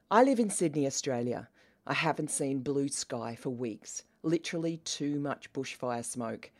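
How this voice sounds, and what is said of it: Australian accent. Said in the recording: “As you can tell by my accent, I am Australian.”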